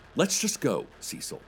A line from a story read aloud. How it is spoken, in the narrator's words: he said